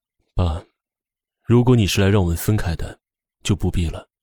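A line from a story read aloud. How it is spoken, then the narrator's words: Lowered, deeper voice. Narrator (Chinese): 声音却沉了几分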